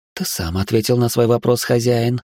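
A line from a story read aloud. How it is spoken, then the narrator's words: Purring. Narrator (Russian): промурлыкала Анирам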